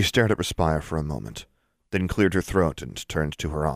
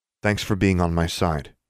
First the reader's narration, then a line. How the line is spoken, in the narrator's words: said, in a carefully neutral tone